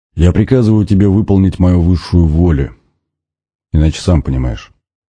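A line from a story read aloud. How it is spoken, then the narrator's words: Menacing commanding tone. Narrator (Russian): продолжил дух грозным повелительным тоном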